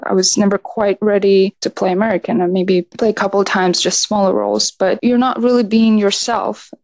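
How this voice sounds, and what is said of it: Distinctive non-American accent. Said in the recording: “I'm glad you didn't lose your accent. It's fantastic ... that accent is certainly unique.”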